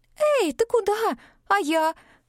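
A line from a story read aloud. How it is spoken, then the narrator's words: Squeaky, female. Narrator (Russian): пискнула подруга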